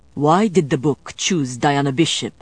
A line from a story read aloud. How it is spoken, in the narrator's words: Domenico snarled